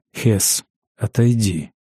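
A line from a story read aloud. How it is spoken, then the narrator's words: Whisper. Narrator (Russian): шепнул Ангус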